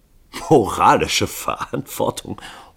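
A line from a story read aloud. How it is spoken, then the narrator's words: Bursting into laughter. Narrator (German): Hall brach in Lachen aus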